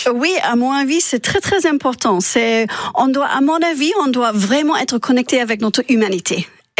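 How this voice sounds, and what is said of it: Non-native French accent. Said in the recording (French): “Vous êtes né en Chine, vous avez aussi vécu en Angleterre. On l'entend avec votre magnifique accent.”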